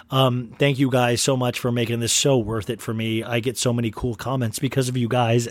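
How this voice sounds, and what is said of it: Worn-out, wavering voice. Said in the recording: “My voice is so thrashed right now ... My voice is just wavering right now”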